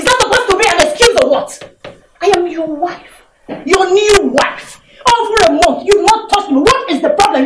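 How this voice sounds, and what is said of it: Raised, angry voice. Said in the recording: “You're raising your voice. ... I am raising my voice because I am angry with you. ... Raising your voice at me.”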